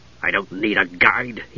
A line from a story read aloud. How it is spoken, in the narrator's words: he whispered furiously